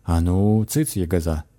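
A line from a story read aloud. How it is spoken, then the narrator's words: Stern old man. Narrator (Russian): строго сказал дед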